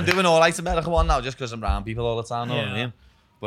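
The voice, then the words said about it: Accent often mistaken for Irish or Scottish. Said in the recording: “I always get asked if I'm Irish, lad. People always think we're Irish ... you're either Irish or Scottish when I'm in America ... it comes off quite Scottish from, like, an American perspective”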